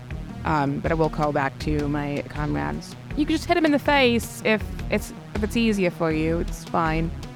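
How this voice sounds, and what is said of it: Put-on character accent, inconsistent. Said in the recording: “my accent's changed again”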